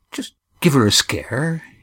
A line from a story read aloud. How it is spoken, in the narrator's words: he murmured